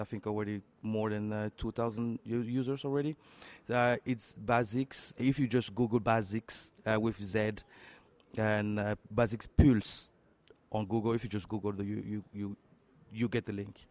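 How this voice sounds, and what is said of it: French-accented English. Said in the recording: “you say Pulse because you're French speaking ... my French accent always always betraying”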